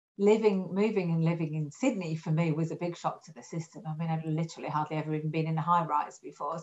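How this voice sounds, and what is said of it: Northern English Yorkshire accent. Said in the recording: “my accent, for some of you might recognise, I think I'm a real Australian now, but I've been being here for 21 years, but I'm actually English. And I'm north of England. I'm a Yorkshire lass”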